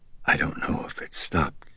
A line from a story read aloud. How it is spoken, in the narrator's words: she whispered